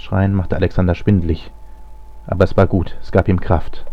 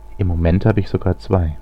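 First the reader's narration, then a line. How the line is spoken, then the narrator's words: Calm, emotionless reply. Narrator (German): gingen keinerlei Gefühle aus, als er ruhig antwortete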